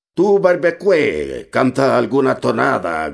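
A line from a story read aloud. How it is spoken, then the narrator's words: Shouting voice. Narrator (Spanish): gritó una voz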